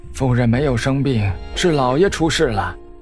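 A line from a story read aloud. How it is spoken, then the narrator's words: Sighing. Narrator (Chinese): 管家叹息一声道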